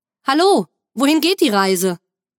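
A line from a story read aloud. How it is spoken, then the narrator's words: Called out. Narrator (German): Hupend hielt ich neben ihnen an, öffnete das Fenster und rief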